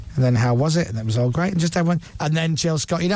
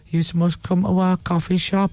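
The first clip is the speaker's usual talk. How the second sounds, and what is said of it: Imitates another person's voice. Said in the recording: “I just did my impression of Jill ... Because she says yous. ... Instead of you.”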